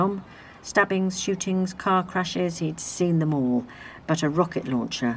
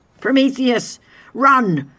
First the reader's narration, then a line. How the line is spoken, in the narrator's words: Adam shouted